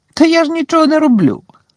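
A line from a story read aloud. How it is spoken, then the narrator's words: Giggling. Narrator (Ukrainian): захихотів Півз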